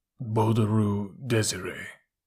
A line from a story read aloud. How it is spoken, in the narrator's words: A thick, slow voice muttered